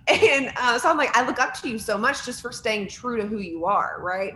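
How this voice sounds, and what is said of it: Virginia country accent. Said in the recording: “someone from Virginia with a country accent, because I refuse to give it up”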